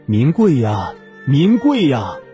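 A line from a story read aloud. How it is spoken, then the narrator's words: Loud bird call. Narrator (Chinese): 高声鸣叫着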